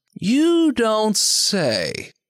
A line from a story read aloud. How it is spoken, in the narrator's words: Art drawls